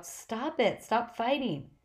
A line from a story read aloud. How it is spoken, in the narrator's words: I yelled